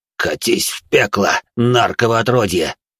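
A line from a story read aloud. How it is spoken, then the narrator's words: Vicious hiss. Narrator (Russian): паладин с перебитой спиной злобно прошипел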